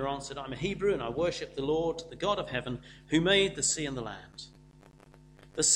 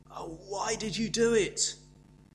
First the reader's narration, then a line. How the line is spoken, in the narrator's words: They groaned